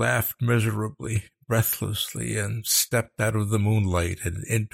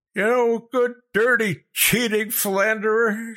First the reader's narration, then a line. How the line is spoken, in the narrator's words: she screamed down at them